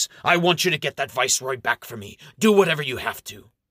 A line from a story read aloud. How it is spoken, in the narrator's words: Amherst snaps